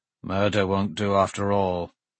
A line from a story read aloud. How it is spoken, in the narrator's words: Samba muttered